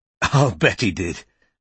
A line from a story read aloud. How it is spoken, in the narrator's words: said Bristow with a scornful laugh